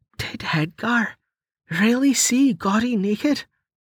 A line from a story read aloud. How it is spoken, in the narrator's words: She whispered with delight